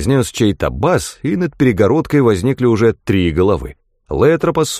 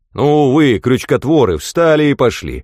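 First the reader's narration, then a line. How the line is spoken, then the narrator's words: Good-natured boom. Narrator (Russian): добродушно прогудел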